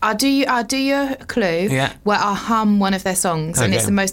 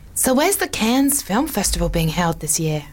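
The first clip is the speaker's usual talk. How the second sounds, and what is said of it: Imitates an American woman's voice. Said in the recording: “Was that a good impression of the person? Is it a woman? ... It's a woman, yeah. ... Are they American? ... Yes.”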